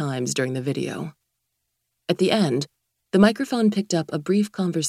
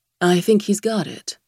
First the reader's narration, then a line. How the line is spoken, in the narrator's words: said Martha